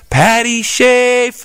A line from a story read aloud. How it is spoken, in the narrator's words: Ted put his hands to his mouth and he called out across the bus